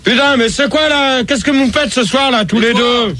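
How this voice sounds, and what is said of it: Shouting. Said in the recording (French): “tu cries”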